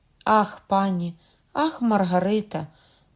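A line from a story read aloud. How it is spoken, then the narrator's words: Sudden cry. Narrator (Ukrainian): скрикнув він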